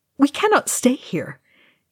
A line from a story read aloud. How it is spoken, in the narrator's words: he said urgently to Aragorn